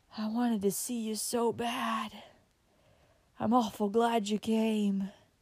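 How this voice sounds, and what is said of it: Feeble, weak voice. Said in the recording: “in a feeble voice”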